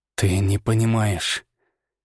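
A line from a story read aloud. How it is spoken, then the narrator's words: Hissed. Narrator (Russian): прошипел я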